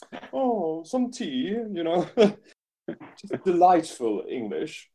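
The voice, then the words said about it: Put-on posh English accent. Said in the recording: “the Downton Abbey version”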